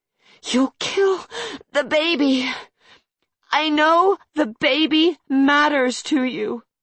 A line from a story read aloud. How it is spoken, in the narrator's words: managed to wheeze out